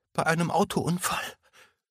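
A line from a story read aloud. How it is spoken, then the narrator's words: Sobbing. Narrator (German): fuhr Emma schluchzend fort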